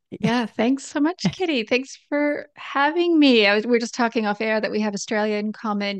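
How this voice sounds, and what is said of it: Australian accent with Canadian twang. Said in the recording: “you've got a weird accent, but I couldn't pick it ... it's Australian, but it has this Canadian twang at the end of it”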